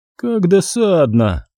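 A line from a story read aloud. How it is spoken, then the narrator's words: Bored drawl. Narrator (Russian): скучающим голосом протянула Эксел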